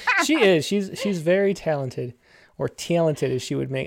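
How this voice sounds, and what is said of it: Rochester accent on talented. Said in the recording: “My Rochester accent comes out... I say the word talented apparently very funny”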